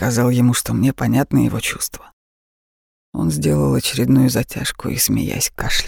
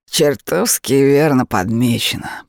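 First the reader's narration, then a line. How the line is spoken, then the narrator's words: Growl. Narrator (Russian): прорычал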